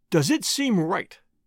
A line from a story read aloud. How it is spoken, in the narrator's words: asked Murray again